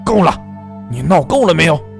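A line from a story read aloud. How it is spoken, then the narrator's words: Low growl. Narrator (Chinese): 阿哲低吼一声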